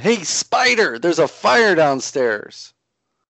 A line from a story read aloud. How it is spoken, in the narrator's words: Yempator is sort of walking away from all this and yelling